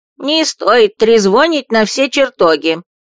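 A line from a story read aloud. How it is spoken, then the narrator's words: Displeased grumble from below. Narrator (Russian): проворчал недовольный голос из-под кровати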